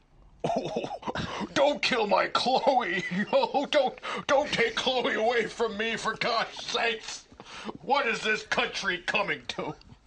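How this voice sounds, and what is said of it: Imitates another person's voice, crying. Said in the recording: “my Rush Limbaugh imitation ... Never seen Rush Law cry? ... That's pretty good.”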